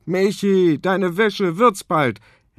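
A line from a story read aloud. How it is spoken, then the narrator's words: Father calling from another room. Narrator (German): Papa aus dem Badezimmer ruft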